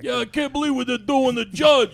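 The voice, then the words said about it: Put-on New York Yankee accent. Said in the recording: “Anybody do a Yankee accent?”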